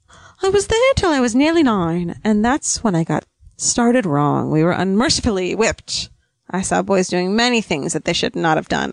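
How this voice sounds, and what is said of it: Light high-class British accent, Katharine Hepburn-like. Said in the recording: “I don't know what accent I was going for in that entire thing. ... It was a light British. ... It was kind of like a Katharine Hepburn thing. ... You know, high class.”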